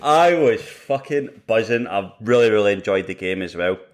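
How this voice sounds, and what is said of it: Raspy hungover voice. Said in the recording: “I'm slightly hungover, as you can probably tell from my from my raspy voice”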